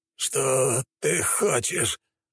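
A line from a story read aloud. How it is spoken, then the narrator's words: Feudal lord's moan. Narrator (Russian): простонал феодал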